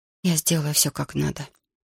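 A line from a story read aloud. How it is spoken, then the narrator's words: Quiet. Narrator (Russian): тихо сказала Марта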